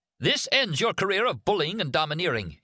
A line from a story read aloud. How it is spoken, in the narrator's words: he shouted at Arnie